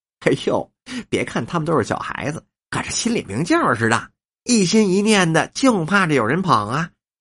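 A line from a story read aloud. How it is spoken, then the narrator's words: Old woman, laughing. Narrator (Chinese): 那个婆子笑着向伯庸说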